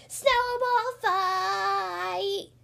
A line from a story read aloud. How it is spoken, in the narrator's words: yelled Froggy